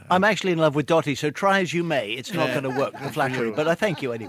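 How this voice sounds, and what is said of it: English accent. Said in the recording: “I love the English accent anyway”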